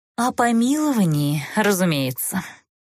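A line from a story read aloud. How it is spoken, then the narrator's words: Mournful sigh. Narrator (Russian): скорбно вздохнула Тмирна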